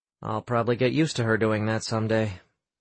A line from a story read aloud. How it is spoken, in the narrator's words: Sam muttered